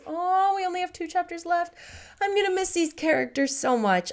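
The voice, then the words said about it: Strained, failing voice. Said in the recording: “I can tell I'm losing my voice.”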